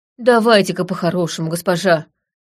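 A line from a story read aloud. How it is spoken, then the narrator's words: Breathy exhale. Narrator (Russian): выдохнул Винч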